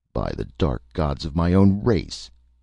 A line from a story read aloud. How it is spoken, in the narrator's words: he cried in anger